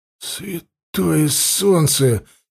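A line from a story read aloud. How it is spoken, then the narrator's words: Hoarse mutter. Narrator (Russian): севшим голосом пробормотал он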